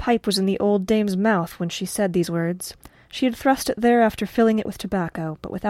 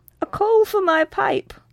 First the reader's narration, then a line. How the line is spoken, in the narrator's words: cried Mother Rigby